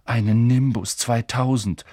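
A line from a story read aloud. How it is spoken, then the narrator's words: Envious groan. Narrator (German): stöhnte Ron neidisch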